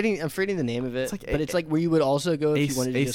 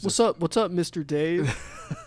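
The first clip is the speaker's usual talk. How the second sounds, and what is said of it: Imitates another person's voice. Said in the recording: “good imitation”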